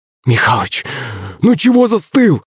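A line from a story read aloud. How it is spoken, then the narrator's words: Cried out. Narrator (Russian): вскрикнула она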